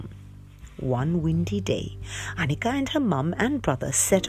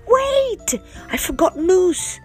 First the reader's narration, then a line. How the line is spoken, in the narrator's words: shouted Annika